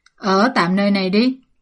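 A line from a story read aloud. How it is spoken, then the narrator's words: Laughing loudly. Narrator (Vietnamese): Lâm Mẫn Thuận cười lớn nói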